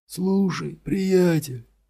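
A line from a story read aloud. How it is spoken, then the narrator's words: Loud whisper. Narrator (Russian): громким шепотом произнес он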